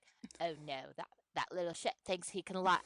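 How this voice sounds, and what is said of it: Put-on unidentified accent. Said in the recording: “I don't know what accent this is.”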